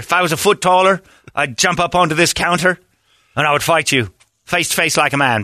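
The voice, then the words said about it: Put-on Irish accent. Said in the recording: “Irish accent”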